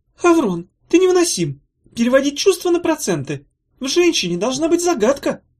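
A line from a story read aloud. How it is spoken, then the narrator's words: Delighted squeal. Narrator (Russian): в восторге взвизгнула Зозо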